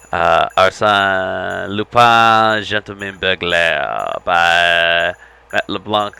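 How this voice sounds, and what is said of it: Bad put-on French accent. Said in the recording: “that was a terrible French accent ... That was terrible.”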